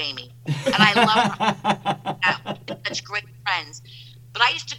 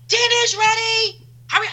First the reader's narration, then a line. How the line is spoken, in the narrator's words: I'd scream